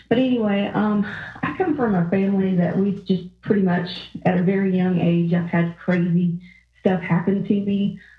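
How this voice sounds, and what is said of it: Southern US Georgia accent. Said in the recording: “I'm from Georgia, if you can't tell from the accent.”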